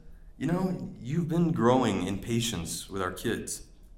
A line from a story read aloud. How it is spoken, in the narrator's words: she just quietly says